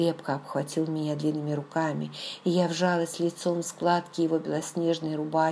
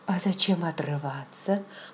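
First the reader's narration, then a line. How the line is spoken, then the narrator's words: Mumbled. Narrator (Russian): пробормотала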